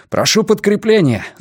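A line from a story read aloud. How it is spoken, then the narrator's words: Shouted into microphone. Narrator (Russian): закричал Раннико в микрофон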